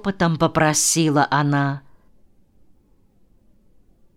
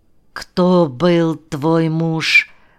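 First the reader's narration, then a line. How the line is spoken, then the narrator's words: Muffled question. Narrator (Russian): глухо спросил Сашка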